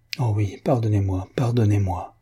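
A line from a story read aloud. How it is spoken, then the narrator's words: Plain. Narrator (French): dit-elle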